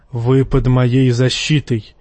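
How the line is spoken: Low, near-growling voice. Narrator (Russian): низким, почти рычащим голосом проговорила она

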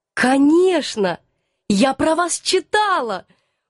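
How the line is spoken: Excited exclamation. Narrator (Russian): воскликнула я, всей душой захваченная интересом к этой новой неординарной персоне

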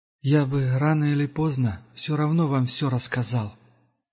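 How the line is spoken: Sighing. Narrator (Russian): вздохнул пилигрим

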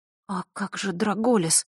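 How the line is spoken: Whisper. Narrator (Russian): прошептала Василиса

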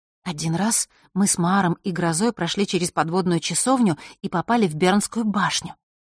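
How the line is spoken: Very soft whisper. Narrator (Russian): тихо-тихо прошептала Василиса

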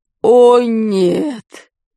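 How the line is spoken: Moan. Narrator (Russian): простонал Дурнев

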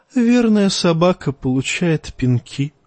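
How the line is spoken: Sighing. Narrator (Russian): вздохнул Евнух

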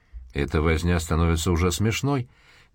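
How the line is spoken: Displeased grumble. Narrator (Russian): недовольно пробурчал Мейси

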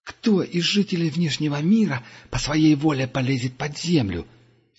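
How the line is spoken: Angry remark. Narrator (Russian): сердито заметил Дуга

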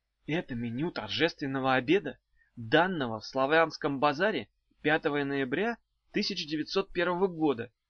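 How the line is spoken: Quiet reply. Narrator (Russian): так же тихо отвечал Багров

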